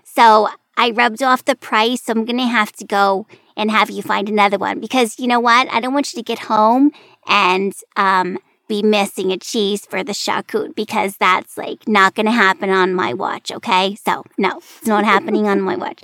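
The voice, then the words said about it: Imitated regional accent. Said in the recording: “internalizing this accent ... listen to you talk like this”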